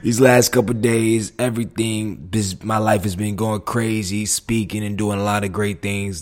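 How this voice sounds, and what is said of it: Hoarse, partly lost voice. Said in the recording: “My voice is a little gone”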